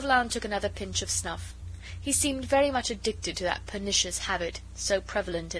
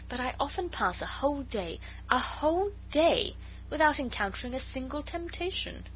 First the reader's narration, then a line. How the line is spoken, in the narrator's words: she said earnestly